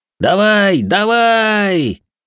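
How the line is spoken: Encouraging group shout. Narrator (Russian): кричали Ичиро и его помощники, поддерживая собрата по клану

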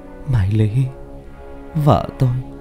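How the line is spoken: Soft dreamlike cry. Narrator (Vietnamese): Bảo tưởng chừng như trong giấc mơ, anh kêu lên khe khẽ

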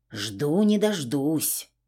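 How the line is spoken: Grumbling. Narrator (Russian): пробурчала

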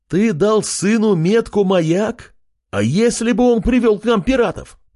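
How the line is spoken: Shout from crowd. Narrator (Russian): выкрикнул кто-то из людей

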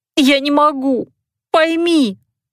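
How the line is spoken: Sobbing girl. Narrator (Russian): всхлипывала девушка

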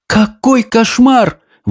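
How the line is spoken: Exclamation. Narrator (Russian): воскликнула Софи

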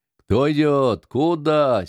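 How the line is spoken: Angry loud shout in darkness. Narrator (Russian): сердито громко крикнули во тьме

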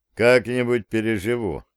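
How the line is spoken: Grumbled. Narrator (Russian): проворчал я

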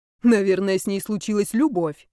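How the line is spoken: Smirking snort. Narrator (Russian): хмыкнул шейк

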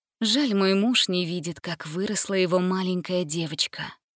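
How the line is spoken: Sighing. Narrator (Russian): вздохнула она

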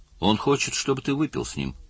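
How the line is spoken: Plain. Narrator (Russian): сказал Лин

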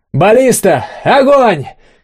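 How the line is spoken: Shout. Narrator (Russian): крикнул Олег

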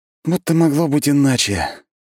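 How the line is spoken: Heavy sigh. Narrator (Russian): Тяжело вздохнул я

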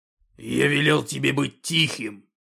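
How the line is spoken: Orc growling up close. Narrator (Russian): прорычал орк, склонившись к самому лицу Артема

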